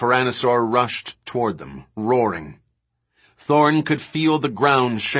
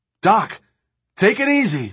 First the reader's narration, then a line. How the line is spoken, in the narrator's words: Levine shouted